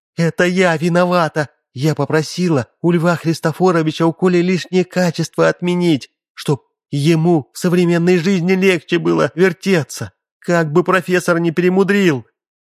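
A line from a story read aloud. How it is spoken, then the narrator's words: Mother's loud whisper. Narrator (Russian): высунулась мама и громко прошептала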